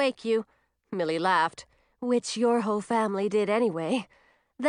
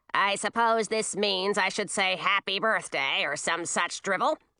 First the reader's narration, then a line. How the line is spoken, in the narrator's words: grumbled Ratinky